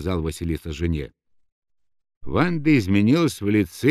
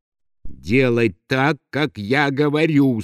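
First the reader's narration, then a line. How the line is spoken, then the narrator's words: Through gritted teeth. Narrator (Russian): сквозь зубы сказал Василиса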